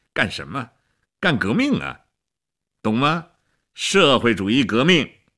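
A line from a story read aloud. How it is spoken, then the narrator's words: Laughing. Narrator (Chinese): 齐比索夫笑起来了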